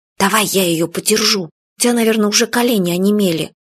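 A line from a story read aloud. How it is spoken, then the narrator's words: Whispering. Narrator (Russian): Юля прошептала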